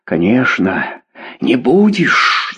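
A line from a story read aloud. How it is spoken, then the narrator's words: Angry whisper. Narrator (Russian): зло прошептала Клава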